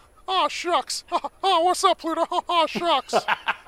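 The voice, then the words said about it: Mickey Mouse cartoon voice impression. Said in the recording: “I can do an okay Mickey Mouse impression ... Not bad, though.”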